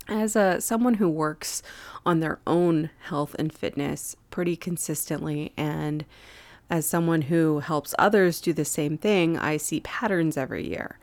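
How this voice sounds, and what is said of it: Slightly congested voice. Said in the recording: “my voice is mostly normal, slightly congested still”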